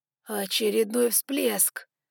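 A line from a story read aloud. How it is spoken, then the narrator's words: Hoarse breathless exclamation. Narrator (Russian): хрипло выдохнул Ноа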